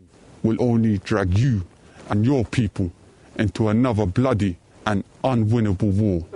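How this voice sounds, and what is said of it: London accent. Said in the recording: “speaks with a London accent.”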